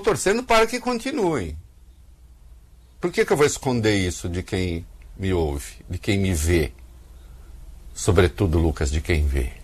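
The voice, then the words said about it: Brazilian caipira accent. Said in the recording (Portuguese): “Reconheci pelo sotaque caipira.”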